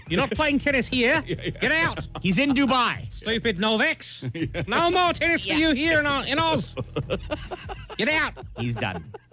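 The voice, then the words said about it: Angry put-on Australian accent. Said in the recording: “Angry Australian ... accent”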